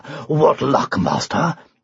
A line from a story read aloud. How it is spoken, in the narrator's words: panted Arthur